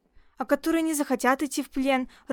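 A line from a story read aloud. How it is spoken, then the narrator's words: Timid question. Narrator (Russian): робко спросил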